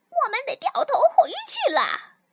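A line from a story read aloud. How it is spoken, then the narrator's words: Pirate shouting. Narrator (Chinese): 另一个海盗大喊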